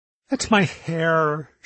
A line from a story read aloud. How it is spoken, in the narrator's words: she said sadly